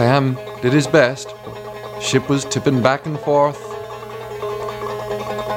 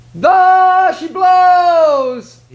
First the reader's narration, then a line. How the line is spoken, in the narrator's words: cried